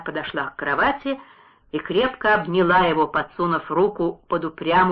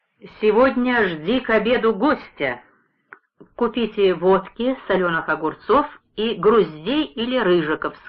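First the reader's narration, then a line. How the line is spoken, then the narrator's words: Plain. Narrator (Russian): сказал он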